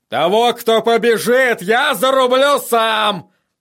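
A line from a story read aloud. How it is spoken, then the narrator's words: Roared. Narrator (Russian): проревел он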